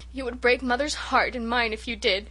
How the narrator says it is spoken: sobbed Rilla

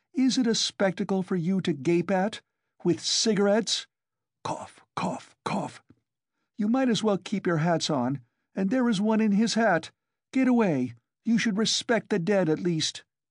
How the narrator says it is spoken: Her cough choked her

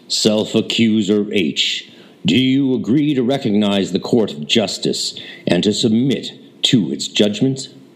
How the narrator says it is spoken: said in his clear proclamatory voice

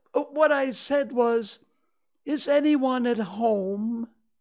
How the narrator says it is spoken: called out Pooh very loudly

